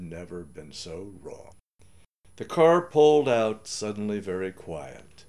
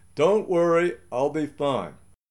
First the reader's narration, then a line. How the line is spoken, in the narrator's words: I called out to her